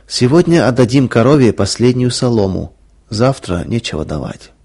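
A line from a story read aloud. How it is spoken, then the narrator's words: Sad. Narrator (Russian): Мария печально сказала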